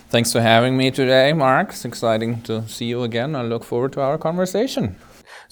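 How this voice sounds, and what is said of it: German accent. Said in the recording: “a little bit of a different accent today. We're not going to have the usual New Hampshire accent. You're originally from Germany”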